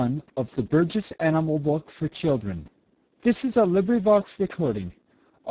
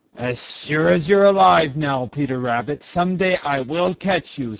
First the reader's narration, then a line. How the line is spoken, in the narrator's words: snarled Reddy Fox